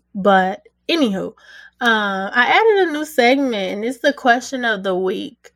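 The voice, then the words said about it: Hoarse, froggy voice. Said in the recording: “I might sound a little froggy ... excuse my voice. It's not how it normally is.”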